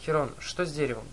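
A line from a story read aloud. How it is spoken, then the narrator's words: Plain question. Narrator (Russian): спросил я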